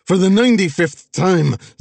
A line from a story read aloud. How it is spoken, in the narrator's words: Zion screamed, spit flying, his fuse fully lit